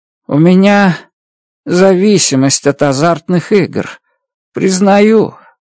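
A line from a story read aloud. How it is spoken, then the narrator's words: Sad. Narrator (Russian): грустно произнес Реддл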